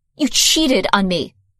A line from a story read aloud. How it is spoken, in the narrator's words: spat